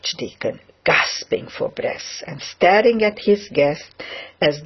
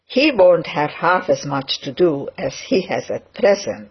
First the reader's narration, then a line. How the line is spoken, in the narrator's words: said Dr